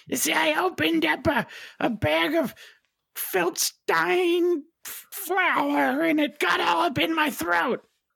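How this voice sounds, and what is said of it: Scratchy, hoarse character voice. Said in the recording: “My voice is a little scratchy.”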